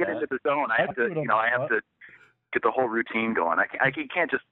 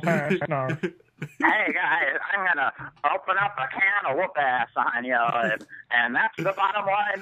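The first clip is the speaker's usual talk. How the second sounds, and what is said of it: Imitates another person's voice. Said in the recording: “your impression of Jeff doing an impression of Stone Cold ... That was pretty good.”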